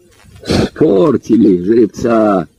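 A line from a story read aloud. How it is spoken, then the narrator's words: Said, bursting into laughter. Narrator (Russian): сказал он, инстинктивно захохотал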